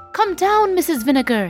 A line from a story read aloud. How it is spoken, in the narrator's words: he cried